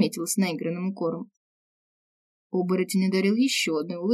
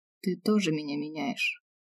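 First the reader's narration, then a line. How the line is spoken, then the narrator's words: Quiet confession. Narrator (Russian): признался тихо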